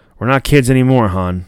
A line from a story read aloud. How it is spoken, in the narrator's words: Luke says